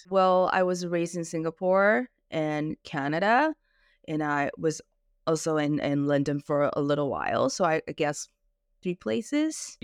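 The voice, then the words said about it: Canadian accent. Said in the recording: “You have an American-Canadian kind of twang, don't you? ... you have a Canadian accent.”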